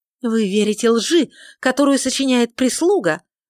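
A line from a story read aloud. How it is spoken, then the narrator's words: Sudden furious shout. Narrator (Russian): внезапно в ярости выкрикнула леди Уинсли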